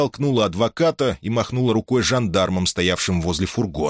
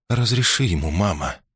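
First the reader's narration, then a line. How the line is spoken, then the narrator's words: Softly spoken. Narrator (Russian): мягко произнесла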